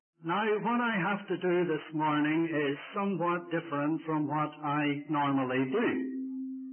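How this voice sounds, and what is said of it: Ulster Irish accent. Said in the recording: “my Ulster accent”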